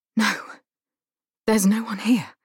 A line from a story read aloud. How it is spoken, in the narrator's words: I say in a half voice, paralyzed